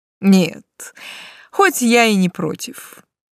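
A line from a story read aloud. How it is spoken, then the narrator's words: Laughing. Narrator (Russian): засмеялся блондин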